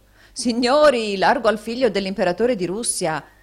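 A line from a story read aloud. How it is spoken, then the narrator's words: Shout. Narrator (Italian): gridò un altro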